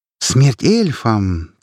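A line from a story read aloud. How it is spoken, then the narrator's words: Solemn proclamation. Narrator (Russian): торжественно провозгласила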